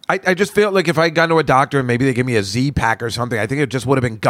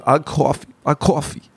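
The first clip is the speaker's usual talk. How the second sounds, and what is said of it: Imitates another person's accent. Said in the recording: “His accent is so awesome. John Travolta in Saturday Night Fever.”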